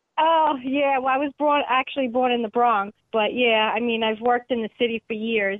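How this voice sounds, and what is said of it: New York accent. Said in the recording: “You've also got a brilliant New York accent. I love that accent.”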